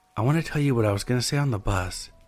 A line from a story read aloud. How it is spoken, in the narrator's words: whispered